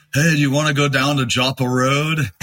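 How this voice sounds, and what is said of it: Baltimore accent impersonation. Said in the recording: “the best way to do a Baltimore impersonation is to say ... It sounds kind of like a California surfer, ... But it's also kind of East, you know, it's got an East Coast thing.”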